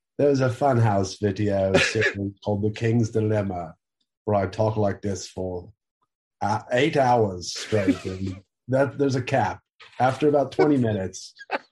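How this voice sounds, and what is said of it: Poor put-on British accent. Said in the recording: “I love talking in British accents ... no one likes listening to my British accent ... this very shitty British accent”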